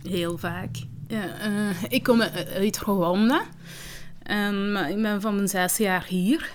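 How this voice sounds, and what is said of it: Limburg-accented Dutch. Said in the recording (Dutch): “ik heb een Limburgs accent”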